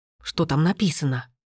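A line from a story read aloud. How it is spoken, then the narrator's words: Whisper. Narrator (Russian): прошептал Расмус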